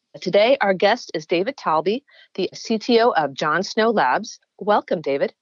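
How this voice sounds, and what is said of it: Stuffy, congested voice. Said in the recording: “I've caught a little bit of the crud that's going around ... I sound stuffy”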